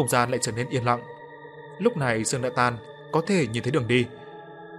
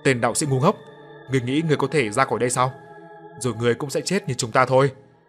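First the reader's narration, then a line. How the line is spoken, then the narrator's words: Hoarse ghostly screaming. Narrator (Vietnamese): lũ vong hồn thét lên giọng khàn đặc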